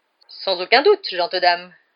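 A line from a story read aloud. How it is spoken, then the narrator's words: Knight exclaiming. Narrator (French): s'écria le chevalier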